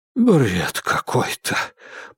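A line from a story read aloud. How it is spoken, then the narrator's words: Muttering. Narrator (Russian): пробормотал мистер Дизмонд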